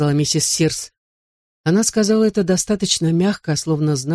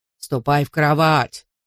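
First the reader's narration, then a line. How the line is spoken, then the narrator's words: Rough mocking mimicry. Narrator (Russian): грубо передразнил он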